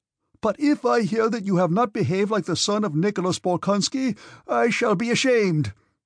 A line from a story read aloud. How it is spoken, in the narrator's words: in a querulous voice suddenly shrieked